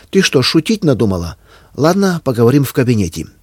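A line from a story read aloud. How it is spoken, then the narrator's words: Angry snap. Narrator (Russian): сердито бросила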